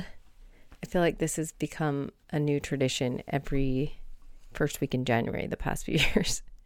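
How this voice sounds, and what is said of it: Voice affected by a cold. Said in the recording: “I apologize about my voice. ... I've got a little bit of a cold. ... I got this cough.”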